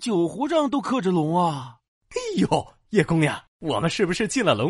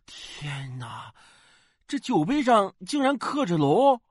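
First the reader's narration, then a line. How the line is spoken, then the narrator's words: Amazed exclamation. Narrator (Chinese): 一个朋友惊叹道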